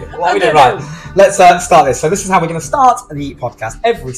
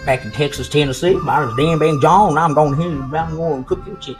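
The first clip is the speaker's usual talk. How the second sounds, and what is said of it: Put-on country and western accent. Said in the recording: “Sounds like a country and western, like ... That's my accent for this week.”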